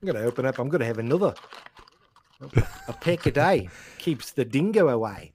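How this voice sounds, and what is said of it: Poor attempt at Australian accent. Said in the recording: “You you sound more like uh, you're doing a bad Beatles impression.”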